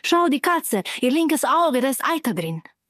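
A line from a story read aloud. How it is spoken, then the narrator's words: Calling out. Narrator (German): rief Carmela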